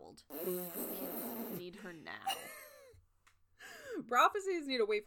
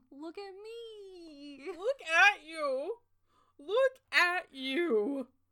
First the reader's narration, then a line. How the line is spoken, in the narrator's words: sighed